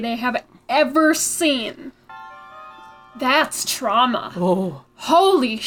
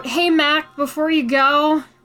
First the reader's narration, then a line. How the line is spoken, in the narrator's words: Tad called out